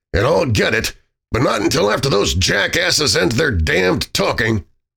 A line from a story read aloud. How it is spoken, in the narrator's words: O'Donnell grumbled